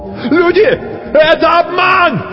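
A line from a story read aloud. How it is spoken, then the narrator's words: Desperate shout. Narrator (Russian): закричал кто-то отчаянно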